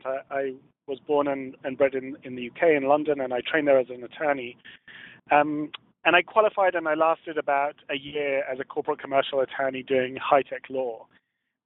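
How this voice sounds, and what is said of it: Faint English accent. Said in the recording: “you can probably tell the remnants of an English accent.”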